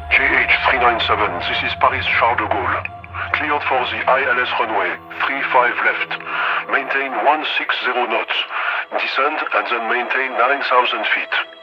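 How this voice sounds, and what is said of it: Thick French accent. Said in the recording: “in a thick French accent”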